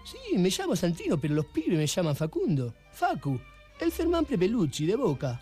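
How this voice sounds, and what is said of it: Exaggerated Argentine Spanish accent. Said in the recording (Catalan): “els argentins ... tot aquest accent el forceu per lligar ... aquest este acento picaresco”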